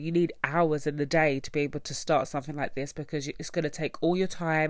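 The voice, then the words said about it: Congested, nasal voice. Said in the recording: “I'm quite nasally and I've sniffed ... I haven't been feeling great this week ... I sound really nasally”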